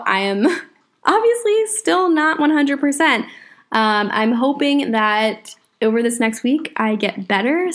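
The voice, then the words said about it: Strained, failing voice. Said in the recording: “My voice is completely giving out. ... I don't have to keep stopping and like taking sips of my drink because I'm dying.”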